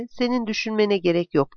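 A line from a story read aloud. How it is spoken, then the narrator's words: Plain. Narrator (Turkish): dedi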